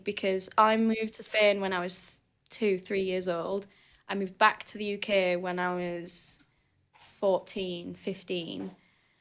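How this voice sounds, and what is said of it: Thick northern English accent. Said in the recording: “I have this really thick northern accent ... you could pinpoint exactly where in England I was from”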